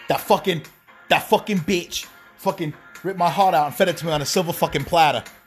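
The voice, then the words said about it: Impression of Tommy Cheeseballs, Jersey Guido. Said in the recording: “I was impersonating Tommy Cheeseballs from True Life ... the original uh, Jersey Shore Guido.”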